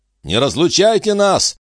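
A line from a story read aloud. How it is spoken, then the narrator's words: Group shouting. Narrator (Russian): кричали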